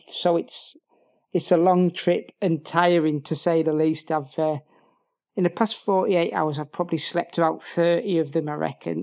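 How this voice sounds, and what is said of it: Northern English accent. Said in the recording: “from your accent, I think our listeners can probably deduce that you are not from the Basque Country originally... Northern England”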